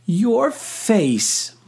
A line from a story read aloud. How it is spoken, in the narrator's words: Moira said between laughs